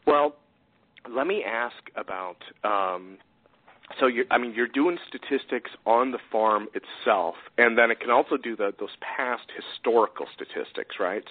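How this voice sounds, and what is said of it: Strained, hoarse voice. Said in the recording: “I think I'm losing my voice or something. It's dusty in here ... it just makes my throat close up on me.”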